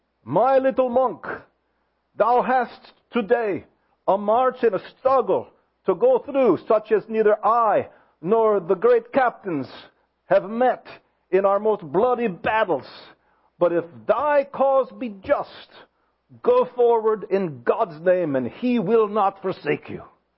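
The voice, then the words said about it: Put-on German accent. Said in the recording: “I'll try to use my German accent from my father-in-law.”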